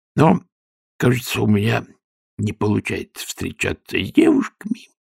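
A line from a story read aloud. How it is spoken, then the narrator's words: Crushed, dejected voice. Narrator (Russian): продолжал Шнобби убитым голосом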